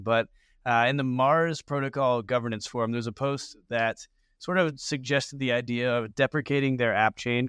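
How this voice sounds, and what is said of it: Sick, flu-affected voice. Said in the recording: “apologize for my voice here. This is my flu game”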